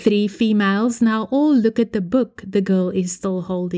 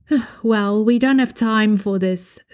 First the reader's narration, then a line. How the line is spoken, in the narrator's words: the grey-haired woman sighs